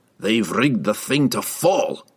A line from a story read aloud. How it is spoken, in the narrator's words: Brunner snorted